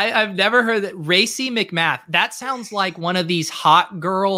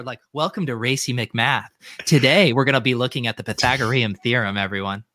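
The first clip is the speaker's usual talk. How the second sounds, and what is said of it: Fake sultry streamer voice. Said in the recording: “doing the fake voice,”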